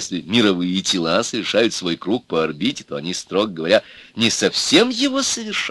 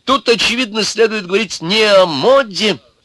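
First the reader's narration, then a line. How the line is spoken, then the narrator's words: Pompous, agitated old man. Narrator (Russian): заговорил старик важно и взволнованно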